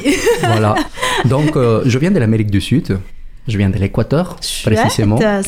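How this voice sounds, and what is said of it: Slight foreign accent in French. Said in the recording (French): “j'ai un petit accent”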